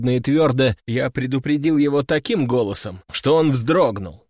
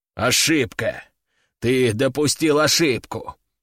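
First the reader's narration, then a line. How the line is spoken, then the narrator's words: Through gritted teeth. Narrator (Russian): Сквозь зубы обращается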